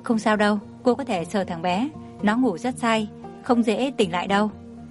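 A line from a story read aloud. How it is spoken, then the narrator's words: Gentle, smiling. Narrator (Vietnamese): Tô Yến Nhi ... mỉm cười ôn hòa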